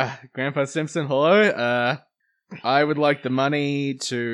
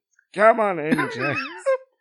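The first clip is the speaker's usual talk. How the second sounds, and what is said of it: Imitates a cartoon character's voice. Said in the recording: “Stop doing the voice. ... It's becoming a bit Milo Kerrigan too.”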